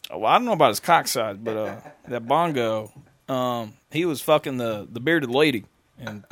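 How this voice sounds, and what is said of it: Shifting put-on accents. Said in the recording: “I'm changing my accents all around. ... I'm doing like 30 different accents.”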